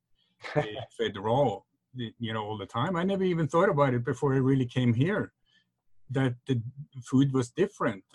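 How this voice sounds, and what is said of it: Norwegian accent. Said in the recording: “I'm from Norway, that's when you have that accent.”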